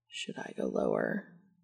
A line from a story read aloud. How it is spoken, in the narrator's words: he murmured